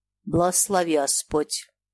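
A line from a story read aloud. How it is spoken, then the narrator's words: Stern. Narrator (Russian): человек сказал строго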